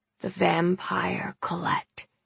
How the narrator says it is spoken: Gran whispered

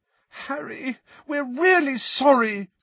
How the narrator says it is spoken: said Hermione desperately, her eyes now sparkling with tears

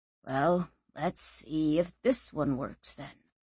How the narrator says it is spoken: wearily said

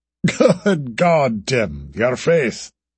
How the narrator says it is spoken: He chuckled again

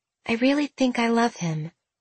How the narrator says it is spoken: Celeste said softly

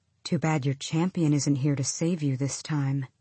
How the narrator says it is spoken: the scarred one said quietly

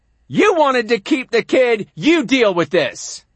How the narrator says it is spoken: my father hollers

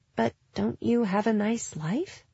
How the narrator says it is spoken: Gwen said in a small voice

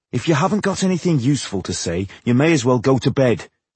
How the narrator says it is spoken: Tungdil told him sharply

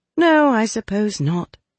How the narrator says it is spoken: said with a sigh

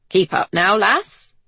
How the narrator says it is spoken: says merrily

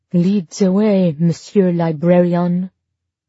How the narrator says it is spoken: said in a terrible French accent

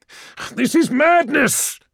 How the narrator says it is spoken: shouted Argonis

